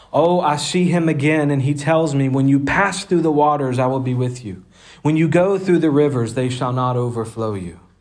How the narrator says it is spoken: Christian cried out with a loud voice

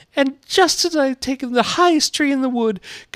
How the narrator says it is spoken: continued the pigeon, rising its voice to a shriek

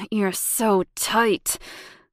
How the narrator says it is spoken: grunted Bryant

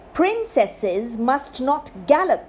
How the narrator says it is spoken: the king said crossly

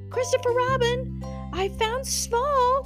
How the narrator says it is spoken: cried Piglet

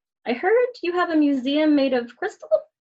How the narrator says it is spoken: Shalini laughed

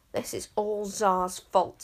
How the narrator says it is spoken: said Luther sulkily

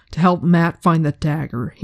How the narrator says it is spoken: he said sharply

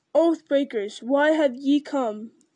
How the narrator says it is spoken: he cried in a great voice

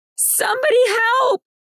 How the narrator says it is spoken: Nix screamed as loud as she could

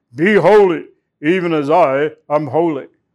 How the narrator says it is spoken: a booming, harsh command

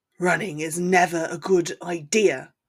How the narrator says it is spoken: he said in his scratchy tone

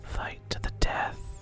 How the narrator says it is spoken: the party hears in the back of their minds a whispered

